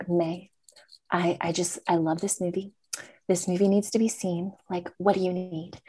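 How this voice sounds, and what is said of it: Impression of actress Jane Schwartz. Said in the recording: “That's my Jane impression.”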